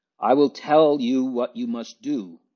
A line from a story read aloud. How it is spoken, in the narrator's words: she exclaimed suddenly